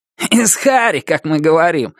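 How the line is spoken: Short laugh. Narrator (Russian): хохотнул Кенни Лафлин

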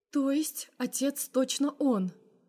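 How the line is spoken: Quiet question. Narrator (Russian): уточняет мама тихо

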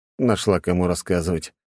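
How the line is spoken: Weary. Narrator (Russian): устало проговорил я

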